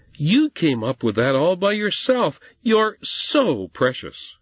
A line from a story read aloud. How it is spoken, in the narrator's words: His mother exclaimed